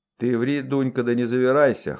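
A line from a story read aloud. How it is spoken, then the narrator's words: Scoffing, mistress. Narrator (Russian): хмыкнула хозяйка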